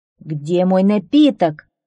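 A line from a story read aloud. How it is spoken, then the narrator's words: Angry growl. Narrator (Russian): зарычал он, видя, что они пусты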